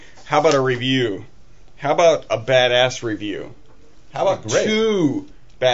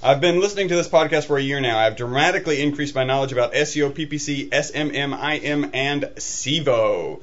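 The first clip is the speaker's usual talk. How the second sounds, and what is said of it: Reading aloud very fast. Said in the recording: “I'm going to read this fast because it's pretty long”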